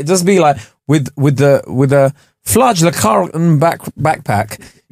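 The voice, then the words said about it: Attempted Norwegian accent. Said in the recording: “Norwegian accent”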